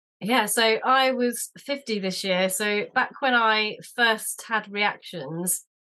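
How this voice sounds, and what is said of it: British accent. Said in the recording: “Brit with a very cool accent.”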